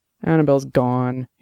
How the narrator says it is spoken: he said, miserably

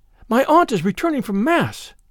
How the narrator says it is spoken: cried the damsel in a fright

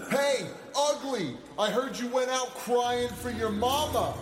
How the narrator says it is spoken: Sarge shouted at the apparition

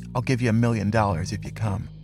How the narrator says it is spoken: distraught, he leaned over into his ear and whispered

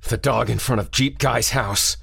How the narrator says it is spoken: croaked

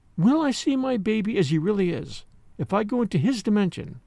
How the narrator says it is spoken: Polly asked simply and earnestly

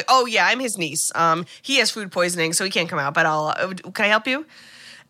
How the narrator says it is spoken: Haley quickly is like

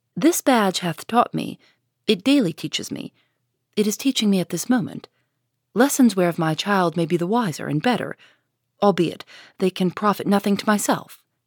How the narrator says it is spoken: said the mother, calmly

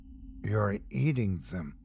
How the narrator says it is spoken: said softly, my voice weak and horrified

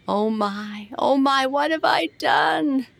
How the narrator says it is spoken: He wailed

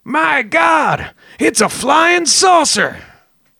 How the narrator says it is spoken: Alan, the same guy who had cut the tree down on Travis's head earlier, yelled

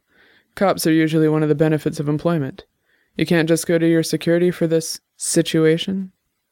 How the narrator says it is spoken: She sighed, and her avatar started to look a little angry

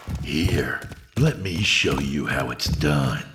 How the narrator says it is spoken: the voice said in a malevolent hiss

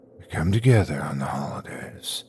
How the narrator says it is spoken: whispered

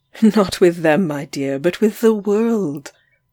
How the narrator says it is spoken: I said, laughing

